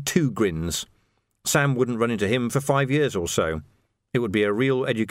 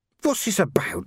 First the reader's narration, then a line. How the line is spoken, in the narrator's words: he murmured, just loud enough for Ned to hear